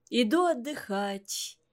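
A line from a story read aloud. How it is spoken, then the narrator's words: Tired, yawning. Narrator (Russian): сказала Софья Вениаминовна, устало зевнув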